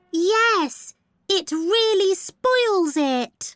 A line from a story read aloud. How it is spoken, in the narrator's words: cried Amber